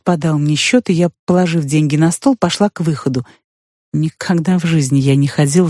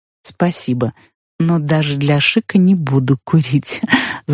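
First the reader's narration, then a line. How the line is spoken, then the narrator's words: Laughing. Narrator (Russian): засмеялась я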